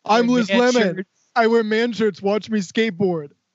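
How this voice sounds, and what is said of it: Impression of Tracy doing Liz Lemon. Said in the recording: “he's in another amazing impression. Tracy does Liz. ... Well, that's the funniest impression.”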